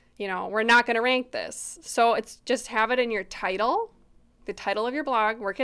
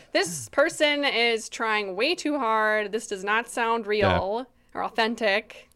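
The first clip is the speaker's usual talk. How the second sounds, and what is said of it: Puts on a voice for Google. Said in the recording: “that's my impression of Google”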